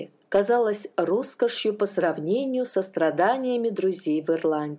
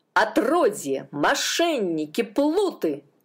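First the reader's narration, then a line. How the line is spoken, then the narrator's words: Shouting at them. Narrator (Russian): кричал он на них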